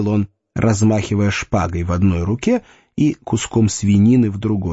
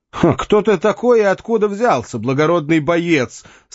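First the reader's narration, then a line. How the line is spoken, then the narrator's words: Speaking while laughing. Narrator (Russian): сказал принц Джон, продолжая смеяться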